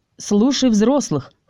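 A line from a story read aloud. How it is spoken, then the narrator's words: Snorting. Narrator (Russian): фыркнул хранитель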